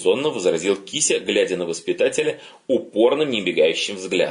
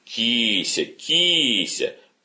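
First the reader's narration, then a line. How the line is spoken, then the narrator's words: Half-laughing, half-serious. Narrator (Russian): полусмеясь, полусерьезно сказал отец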